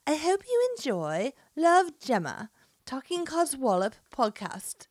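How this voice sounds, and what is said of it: Attempted English accent, slipping southern. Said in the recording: “She doesn't sound like that at all ... can't do an English accent to save her life ... I almost went a little southern there at one point ... it's like a British flavor”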